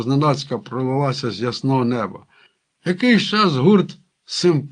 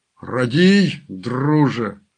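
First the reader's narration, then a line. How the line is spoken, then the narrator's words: Moaning wind. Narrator (Ukrainian): простогнав крутий вітер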